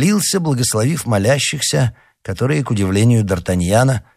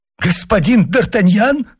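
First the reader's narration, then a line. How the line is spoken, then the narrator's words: Exclaimed. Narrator (Russian): воскликнул он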